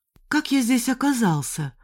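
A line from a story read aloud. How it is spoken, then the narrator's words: Weak voice. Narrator (Russian): слабым голосом спросил Андрей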